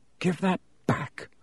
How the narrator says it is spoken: said Harry quietly

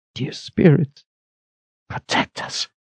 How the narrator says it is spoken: she whispered

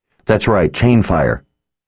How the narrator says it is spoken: Richard said impatiently through gritted teeth

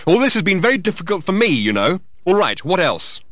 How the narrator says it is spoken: added angrily

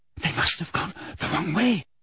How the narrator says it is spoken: whispered Hermione, terror in her face

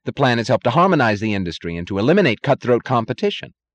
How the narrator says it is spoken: said Taggart eagerly

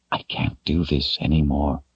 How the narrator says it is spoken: he whispered

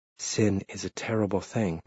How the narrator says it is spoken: Mother Ursula said gravely

